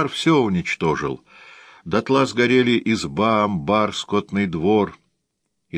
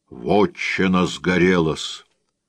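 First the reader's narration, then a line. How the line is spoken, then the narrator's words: Deep bass voice. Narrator (Russian): пробасил он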